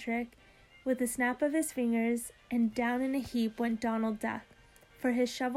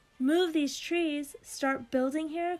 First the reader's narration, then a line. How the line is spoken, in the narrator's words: cried Patrick Bagora, jumping up and down in a purple rage